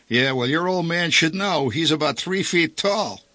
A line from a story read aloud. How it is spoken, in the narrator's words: Kissel lashed back, cackling fiendishly